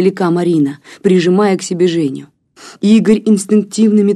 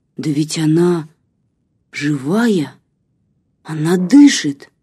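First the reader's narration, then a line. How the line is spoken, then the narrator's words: Shocked mutter. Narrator (Russian): Васька шокированный пробормотал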